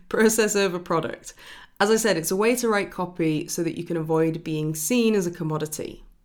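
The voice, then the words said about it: Accent stretching 'er' vowel sounds. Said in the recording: “my accent, which tends to extend the er sound instead of saying oh. I say er.”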